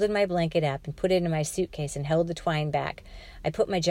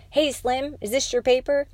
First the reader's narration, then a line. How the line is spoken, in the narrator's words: boy yelled